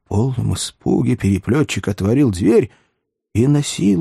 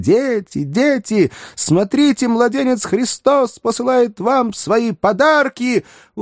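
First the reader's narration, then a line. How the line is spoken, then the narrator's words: Loud exclamation. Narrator (Russian): Громко восклицая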